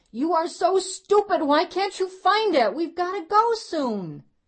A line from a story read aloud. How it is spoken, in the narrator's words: a frantic Sydney yelled at her mother